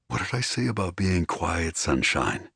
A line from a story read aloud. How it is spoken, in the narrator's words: He purred